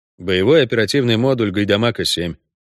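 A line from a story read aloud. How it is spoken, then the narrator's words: Dry. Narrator (Russian): сухо ответил ведьмак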